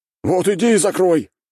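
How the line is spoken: Shouted reply. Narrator (Russian): крикнули ему в ответ

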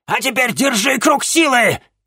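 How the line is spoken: Shout. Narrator (Russian): крикнула ему мадам Анаит

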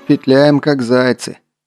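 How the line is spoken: Grumbling, mildly sarcastic. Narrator (Russian): с мягким сарказмом ворчал командир

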